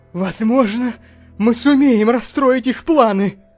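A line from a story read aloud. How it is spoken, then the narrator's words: Exclaiming. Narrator (Russian): воскликнул он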